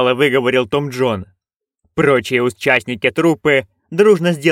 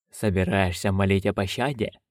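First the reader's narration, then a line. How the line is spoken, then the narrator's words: Condescending grumble from leader. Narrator (Russian): снисходительно буркнул главарь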